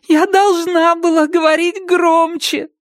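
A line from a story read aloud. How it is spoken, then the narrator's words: Sobbing. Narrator (Russian): всхлипнула Рэйчел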